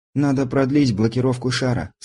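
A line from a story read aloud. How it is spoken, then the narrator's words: Calm young woman. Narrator (Russian): спокойно заявила девушка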